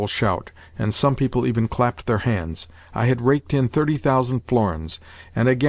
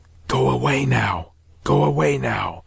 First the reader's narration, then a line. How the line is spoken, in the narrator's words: a voice whispered to me on my right